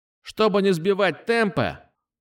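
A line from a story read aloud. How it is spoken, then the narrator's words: Shouting into microphone. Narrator (Russian): прокричал в микрофон Назар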